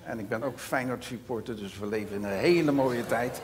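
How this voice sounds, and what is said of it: Rotterdam Dutch accent. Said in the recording (Dutch): “Ik ben een echte Rotterdammer, dus mijn accent is Rotterdams.”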